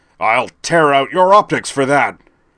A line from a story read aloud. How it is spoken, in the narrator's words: the Herald of Unicron roaring